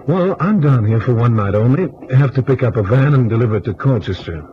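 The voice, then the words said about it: American accent. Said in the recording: “You're American, aren't you? ... Yankee through and through. ... I could tell by your accent.”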